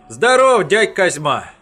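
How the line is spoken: Joyful shout. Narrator (Russian): радостно выкрикнул Васятка

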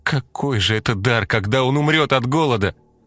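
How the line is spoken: Desperate exclamation. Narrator (Russian): в отчаянии воскликнула Марфа

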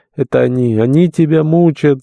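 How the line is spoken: Sobbing old woman. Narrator (Russian): заговорила всхлипывая старуха

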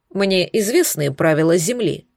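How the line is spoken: Plain. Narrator (Russian): ответил он

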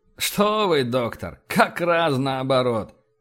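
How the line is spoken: Laughing. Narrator (Russian): рассмеялся Эссекс

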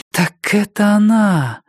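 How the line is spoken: Door exhaling in recognition. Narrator (Russian): выдохнула дверь, узнав Джессику

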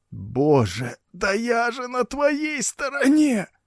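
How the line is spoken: Hoarse wheezing. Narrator (Russian): захрипел Тадео

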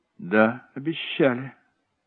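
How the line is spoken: Calm confirmation. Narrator (Russian): спокойно подтвердил Дэнни

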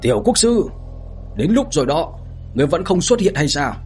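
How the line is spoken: Hurried uneasy loud shout. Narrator (Vietnamese): Bàng Cầu Tử thấy vậy, trong lòng thấy không ổn, vội vàng ngẩng đầu hét lớn

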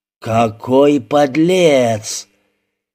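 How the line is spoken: Drawn-out singsong. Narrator (Russian): Степнадзе нараспев протянул

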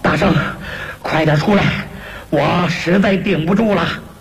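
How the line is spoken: Panting, hurried. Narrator (Chinese): 亢金龙喘着粗气，忙说

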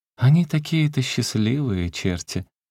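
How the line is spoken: Laughing. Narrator (Russian): сказала она, смеясь

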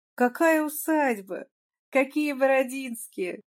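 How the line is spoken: Persistent, laughing. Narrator (Russian): не унимался Козлов, смеясь

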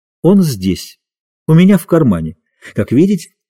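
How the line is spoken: Gentle, affectionate. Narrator (Russian): прибавил он ласково

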